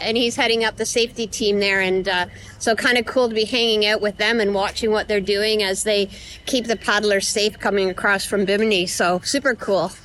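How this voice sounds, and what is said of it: Canadian accent. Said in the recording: “your Canadian accent”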